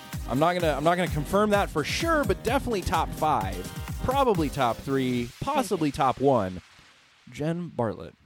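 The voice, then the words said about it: Sick, low-energy voice. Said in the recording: “you might hear it in my voice... to make my normal chipper self sound normal and chipper, but I am laid low. I am down with the sickness”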